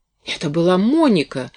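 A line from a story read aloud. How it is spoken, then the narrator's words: Exclaimed. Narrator (Russian): воскликнула Кэти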